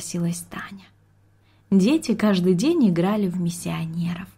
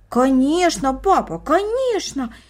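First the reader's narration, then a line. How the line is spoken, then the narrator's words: Two voices in unison. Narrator (Russian): воскликнули брат и сестра в один голос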